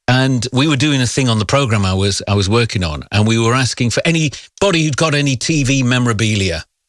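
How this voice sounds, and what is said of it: Northeast English accent. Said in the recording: “I used to work on the radio a little bit further north in the northeast. You can maybe tell a little bit by the accent.”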